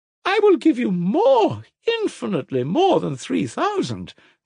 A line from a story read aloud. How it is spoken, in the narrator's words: cried Madame Hochlakoff, looking with a radiant smile